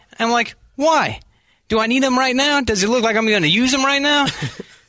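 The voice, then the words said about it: Speech impediment sounding like an accent. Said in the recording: “that's a Missouri accent? ... People say Boston, England ... You making up your own accent ... it's a speech impediment ... he had a speech impediment. I could tell he couldn't say his oz ... That wasn't Boston at first. Then I'm like, maybe it's Philly. Now I'm not sure if it's Eastern European”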